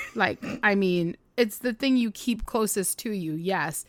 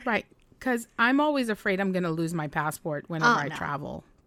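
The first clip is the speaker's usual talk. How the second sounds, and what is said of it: Sarcastic tone. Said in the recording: “I'm being sarcastic.”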